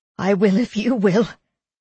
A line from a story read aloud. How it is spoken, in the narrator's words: laughed